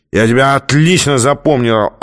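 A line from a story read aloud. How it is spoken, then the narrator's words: Drunken yelling. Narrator (Russian): орал пьяный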